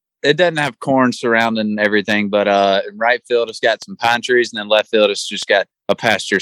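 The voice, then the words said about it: Southern US accent, Alabama. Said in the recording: “we can tell from your accent, you're from the South, you're from Alabama.”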